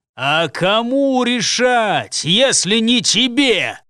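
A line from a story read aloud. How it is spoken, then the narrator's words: Menacing growl. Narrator (Russian): Грозно прорычал на него его похититель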